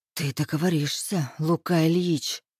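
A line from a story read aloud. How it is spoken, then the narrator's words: Hissing. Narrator (Russian): шипела я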